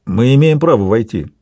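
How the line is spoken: Plain. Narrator (Russian): говорит Вальпат

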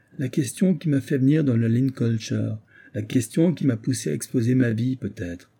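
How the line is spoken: Young man exclaiming. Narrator (French): s'écria le jeune homme

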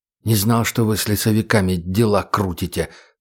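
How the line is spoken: Whisper. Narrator (Russian): прошептал Сергей

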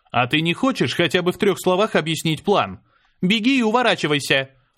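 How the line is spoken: Shouted out. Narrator (Russian): выкрикнула она

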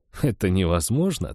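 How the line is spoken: After laughing. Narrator (Russian): ответил я, отсмеявшись

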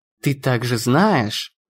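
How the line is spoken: Purring. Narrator (Russian): промурлыкала Натали

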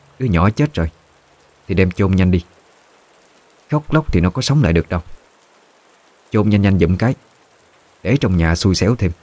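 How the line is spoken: Cold. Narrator (Vietnamese): bà mới lạnh lùng nói

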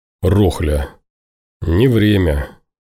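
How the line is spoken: Hoarse voice. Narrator (Russian): Сипло произнес он

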